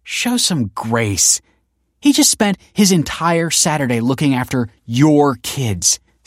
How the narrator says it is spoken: snapped Kelsey

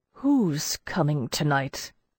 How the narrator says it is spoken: I asked so weakly nobody heard me

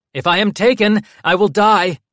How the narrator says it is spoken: Armand shouted

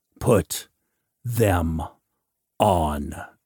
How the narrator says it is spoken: he repeated in the toneless voice of one who was dead to all appeasement or mercy

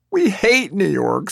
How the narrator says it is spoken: sobs his wife in despair

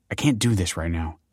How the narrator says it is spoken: snapped Kelsey

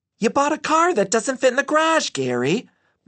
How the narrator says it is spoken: Mom shouted

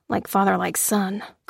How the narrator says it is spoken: grunted

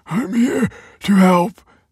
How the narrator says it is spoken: panted Michael

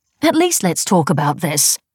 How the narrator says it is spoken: exclaimed reproachfully

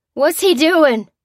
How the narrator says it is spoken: cried the unprotected soldier

